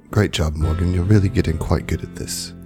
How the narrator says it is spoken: kind of whispers to Morgan

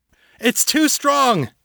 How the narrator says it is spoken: Harold shouted

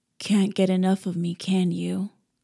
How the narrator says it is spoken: His mocking whisper ghosted over my lips, its softness

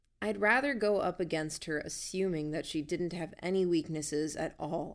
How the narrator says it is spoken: I said

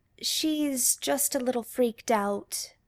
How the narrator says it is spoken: Claire says softly

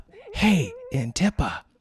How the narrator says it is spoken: Tark called softly

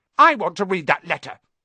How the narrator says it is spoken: he said loudly

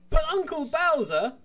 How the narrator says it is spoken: Crow whines, even though he is an adult

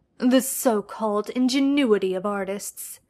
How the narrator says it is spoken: Sherlock scoffed

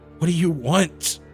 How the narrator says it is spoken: I groaned, damn near ready to crap myself

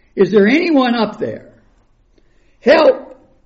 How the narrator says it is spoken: He yelled for hours

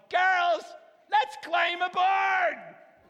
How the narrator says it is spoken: a woman pirate captain yelled

